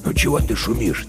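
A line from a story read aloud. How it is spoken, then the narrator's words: Quiet question. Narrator (Russian): тихо спрашивал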